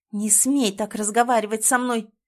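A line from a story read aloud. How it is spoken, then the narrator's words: Devastated hiss through teeth. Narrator (Russian): шиплю сквозь зубы, чувствуя, как мой мир разбивается вдребезги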